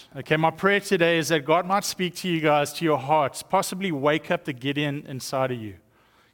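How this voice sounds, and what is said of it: South African accent. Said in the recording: “In case you're wondering if this is an Australian accent, you would have totally offended me ... The difference between South Africans and Australians”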